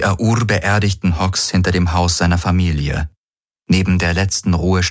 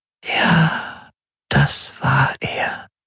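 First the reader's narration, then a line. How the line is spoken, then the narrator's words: Softly. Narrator (German): sagte sie leise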